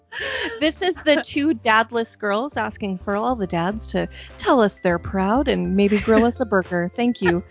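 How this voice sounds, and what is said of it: Radio announcer voice. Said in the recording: “I can do a fucking radio accent”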